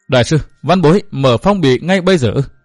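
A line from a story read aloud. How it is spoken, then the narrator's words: Trembling voice. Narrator (Vietnamese): Văn Thiên Hạo nói giọng run run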